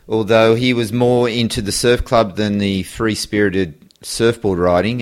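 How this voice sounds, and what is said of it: Australian accent. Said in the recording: “I know from your accent that you're from Australia”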